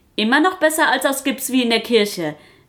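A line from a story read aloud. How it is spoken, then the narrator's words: Called out. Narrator (German): rief Maya Papaya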